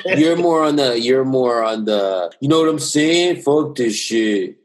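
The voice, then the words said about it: Imitated deep male voice. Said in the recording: “That was me trying to imitate a man with a deep voice.”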